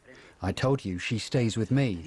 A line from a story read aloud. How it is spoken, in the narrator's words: says Alejandro